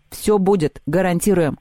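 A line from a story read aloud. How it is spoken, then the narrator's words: Plain. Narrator (Russian): сказал Антон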